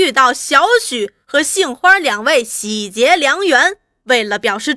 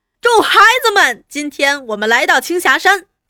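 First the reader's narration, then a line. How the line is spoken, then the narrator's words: Shouting. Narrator (Chinese): 大声叫着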